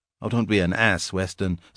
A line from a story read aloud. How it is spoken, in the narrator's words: said Divine, in a more serious voice